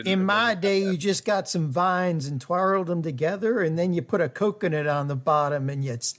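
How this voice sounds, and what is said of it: Put-on South Carolina Southern accent. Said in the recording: “What the hell was that accent? Was that was like Forrest Gump? ... Was that like South Carolina? ... South Carolinian.”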